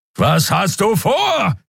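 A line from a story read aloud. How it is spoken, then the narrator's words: Roar. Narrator (German): brüllte Keru wieder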